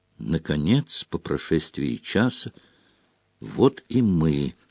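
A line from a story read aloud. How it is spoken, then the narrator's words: Whispered. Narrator (Russian): прошептала Гермиона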